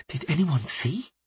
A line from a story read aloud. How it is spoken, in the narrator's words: she whispered